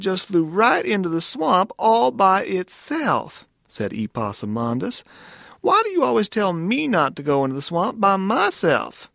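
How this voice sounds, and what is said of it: Lilting southern accent. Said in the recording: “The lilting, like, southern accent, it's delightful.”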